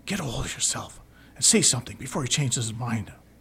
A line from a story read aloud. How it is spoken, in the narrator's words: whisper harshly